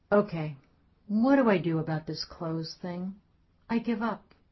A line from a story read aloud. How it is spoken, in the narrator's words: She said calmly, drained of anger or blame